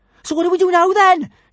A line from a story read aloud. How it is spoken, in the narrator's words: shouted Kamikaze, her teeth chattering